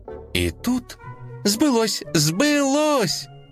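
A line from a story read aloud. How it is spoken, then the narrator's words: Child's joyful distant shout. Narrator (Russian): радостно закричал малыш из своей комнаты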